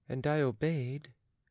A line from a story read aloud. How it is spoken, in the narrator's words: said Jean timidly